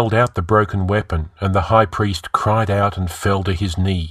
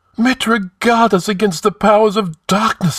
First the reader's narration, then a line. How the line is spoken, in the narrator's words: he gasped